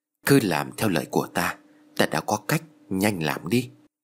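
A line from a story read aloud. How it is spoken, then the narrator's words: Spoken softly. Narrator (Vietnamese): thầy Tàu nói khẽ với Tư và Kha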